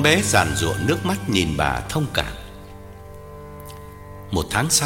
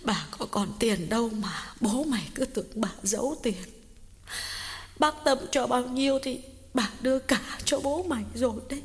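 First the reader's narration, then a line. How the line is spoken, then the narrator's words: Sniffling, tearful old woman. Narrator (Vietnamese): Bà Cảnh sụt sùi nói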